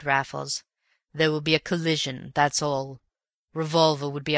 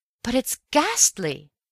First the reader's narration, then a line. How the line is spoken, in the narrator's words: I cried